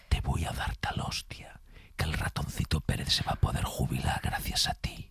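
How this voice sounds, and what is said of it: Menacing whisper. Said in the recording (Spanish): “susurrada... que es en susurro, que da mucho más miedo cuando te lo dice susurrado”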